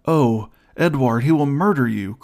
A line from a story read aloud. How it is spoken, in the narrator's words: cried the fair girl